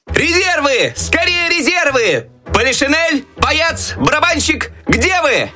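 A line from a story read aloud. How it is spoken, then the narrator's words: Desperate shout. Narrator (Russian): Так отчаянно кричал Щелкунчик, надеясь на помощь еще оставшихся в шкафу войск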